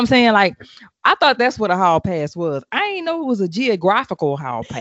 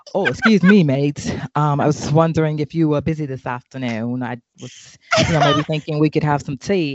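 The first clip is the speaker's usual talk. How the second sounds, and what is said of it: Put-on British accent sounding Australian. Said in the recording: “you killing me with the Aussie accent for the British”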